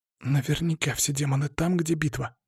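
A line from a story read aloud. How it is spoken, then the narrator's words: Hoarse wheeze. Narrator (Russian): просипела красотка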